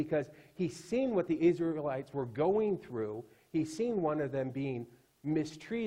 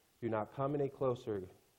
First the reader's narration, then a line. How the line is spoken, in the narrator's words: God said